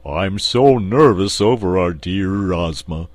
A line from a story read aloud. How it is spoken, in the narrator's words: said the Cowardly Lion in his deep, rumbling voice